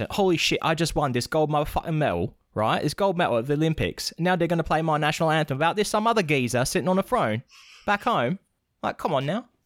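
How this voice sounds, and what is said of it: Put-on Cockney accent. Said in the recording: “I better do the right accent. ... not horrendous, ... Just Cockney. ... Cockney's easy.”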